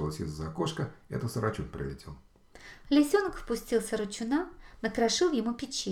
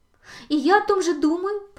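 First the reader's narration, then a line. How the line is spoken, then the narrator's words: Excited young fox. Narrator (Russian): подхватил лисенок взволнованно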